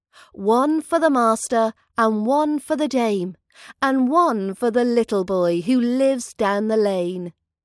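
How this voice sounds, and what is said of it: British accent. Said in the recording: “British accent training”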